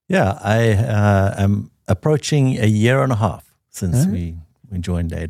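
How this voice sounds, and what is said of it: Smooth South African accent. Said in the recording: “this accent you're hearing is genuine. ... This is his real accent. ... the smooth accent from South Africa”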